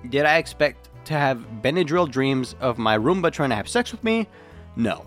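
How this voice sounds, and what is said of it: Impaired, unwell-sounding voice. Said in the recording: “I really can't with this voice... Hopefully my voice will be better.”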